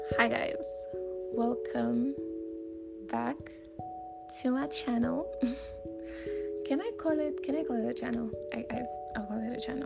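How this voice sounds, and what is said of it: Groggy voice. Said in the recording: “My voice sounds groggy because I am just from waking up”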